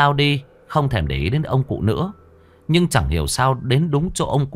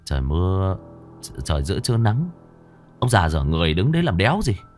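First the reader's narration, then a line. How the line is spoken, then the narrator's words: Muttering. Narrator (Vietnamese): Nam lầm bầm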